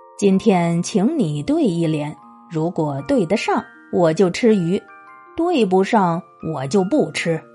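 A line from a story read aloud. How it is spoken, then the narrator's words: Laughing. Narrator (Chinese): 他冲着佛印笑道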